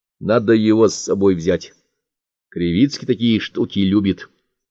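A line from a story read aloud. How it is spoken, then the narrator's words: Calm. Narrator (Russian): проговорил спокойно Цибульник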